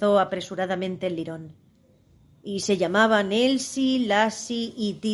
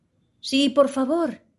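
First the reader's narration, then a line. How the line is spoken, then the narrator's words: Imploring. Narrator (Spanish): imploró Alicia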